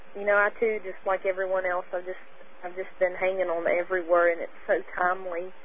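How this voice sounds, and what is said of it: Southern American accent. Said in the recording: “your southern accent”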